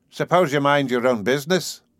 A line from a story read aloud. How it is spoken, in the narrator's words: suggested O'Sullivan blandly